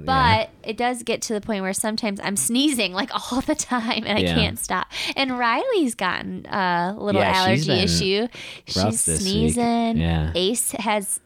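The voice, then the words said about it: Slightly stuffy, different-sounding voice. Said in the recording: “my voice is different ... a little stuffy maybe”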